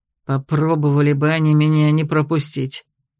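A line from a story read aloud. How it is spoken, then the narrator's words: Caustic through teeth. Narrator (Russian): едко процедил Доренс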